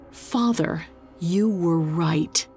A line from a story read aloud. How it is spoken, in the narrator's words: With effort, she managed to croak out